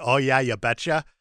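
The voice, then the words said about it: Minnesota accent. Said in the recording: “It's the accent ... It's always the accent ... a girl from Minnesota”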